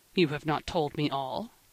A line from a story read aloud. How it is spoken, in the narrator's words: said he